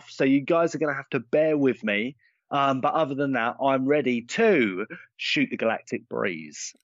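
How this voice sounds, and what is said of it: Congested, blocked-nose voice. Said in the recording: “I have a little bit of a cold. I've got a bit of a blocked nose and a little bit of a cough.”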